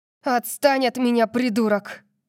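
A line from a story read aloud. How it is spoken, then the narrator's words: Growl. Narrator (Russian): прорычала я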